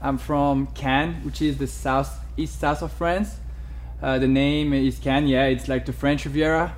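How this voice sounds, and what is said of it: French accent. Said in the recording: “I'm French, as you can hear with my accent.”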